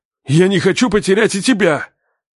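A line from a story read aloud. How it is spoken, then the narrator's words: Shouted. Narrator (Russian): крикнул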